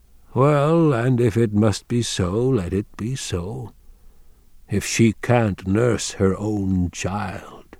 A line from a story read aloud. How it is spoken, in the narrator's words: Wang Lung said sadly, although why he was sad he didn't know